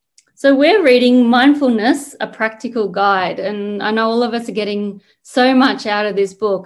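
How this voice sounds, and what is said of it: Australian accent. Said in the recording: “you could probably tell from my accent, I'm Australian”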